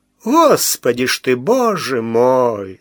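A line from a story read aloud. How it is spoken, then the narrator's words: Tearful drawl. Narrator (Russian): со слезою в голосе протянул Михалыч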